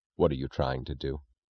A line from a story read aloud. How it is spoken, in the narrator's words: Reardon asked, his voice low with a sound which was almost a threat